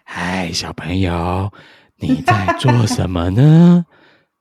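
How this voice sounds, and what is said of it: Scary old witch character voice. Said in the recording (Chinese): “还要变那个声音啊...很可怕的老巫婆...巫婆要讲”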